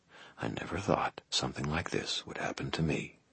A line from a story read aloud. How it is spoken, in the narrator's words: I muttered